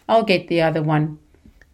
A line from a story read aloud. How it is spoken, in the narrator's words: Mum rolled her eyes in response and snapped